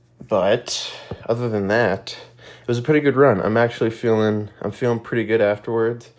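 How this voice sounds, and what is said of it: Stuffy, congested voice. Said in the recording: “if I sound a little stuffy. I'm allergies, I guess.”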